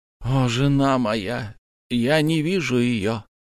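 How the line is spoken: Sighing. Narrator (Russian): вздохнул Ламы

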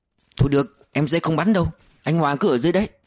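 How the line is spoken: Flustered, hurried. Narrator (Vietnamese): Thắng rối rít

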